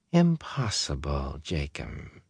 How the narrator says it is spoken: she said softly

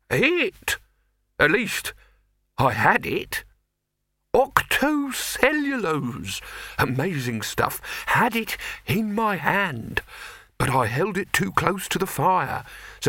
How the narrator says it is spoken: said the figure in the perplexed tones of the nearly concussed

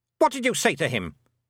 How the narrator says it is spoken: snapped the Queen

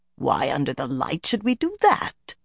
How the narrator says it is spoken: Morvryn rumbled

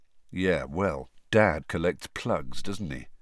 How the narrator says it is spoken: said Fred, quietly

